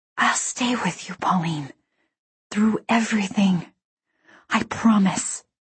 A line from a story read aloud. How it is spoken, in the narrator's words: leaned close and whispered